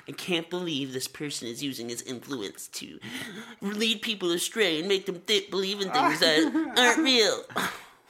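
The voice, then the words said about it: Imitates another person's voice. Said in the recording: “great impersonation”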